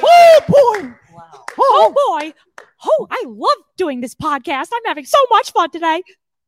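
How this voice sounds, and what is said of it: Mickey Mouse cartoon voice impression. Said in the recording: “mean Mickey Mouse impression ... It's so good.”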